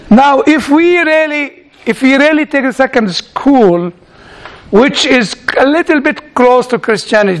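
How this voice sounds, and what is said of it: Non-native English accent. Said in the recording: “I recognize that there is a problem in my accent, and I'm trying to speak like you.”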